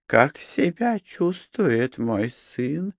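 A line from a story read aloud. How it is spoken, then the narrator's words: Whispered question. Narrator (Russian): шепотом спросила Аток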